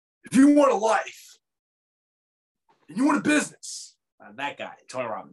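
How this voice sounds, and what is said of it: Bad Tony Robbins impression. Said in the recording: “It was a bad impression.”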